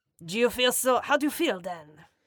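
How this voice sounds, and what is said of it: Put-on French accent. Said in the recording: “can you do the rest of the show with the for that French accent?”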